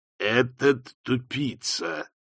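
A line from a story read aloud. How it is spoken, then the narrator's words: Ominous voice. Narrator (Russian): нехорошим голосом отозвалась тень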